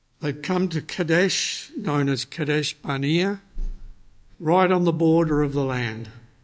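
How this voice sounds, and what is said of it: Australian accent. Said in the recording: “in Australian we say Kadesh, but that's normal for our bad accent”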